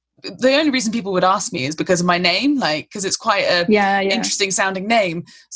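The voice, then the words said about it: Very posh English accent. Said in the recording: “my absurdly posh accent ... people just assume, oh, she's from down the road probably, or she's from around here”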